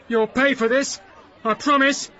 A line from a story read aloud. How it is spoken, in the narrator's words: he shouted threateningly